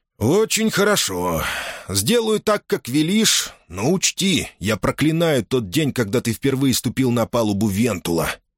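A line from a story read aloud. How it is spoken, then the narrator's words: Through clenched teeth, merchant. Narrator (Russian): процедил торговец сквозь зубы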